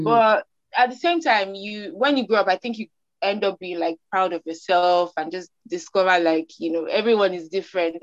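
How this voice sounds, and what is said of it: Nigerian accent. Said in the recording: “I'm seen as a Nigerian, my accent, you know, the girl from Nigeria.”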